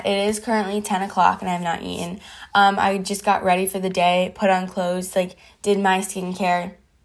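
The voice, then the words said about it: Weird, groggy-sounding voice. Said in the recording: “if my voice sounds so really weird ... I just woke up”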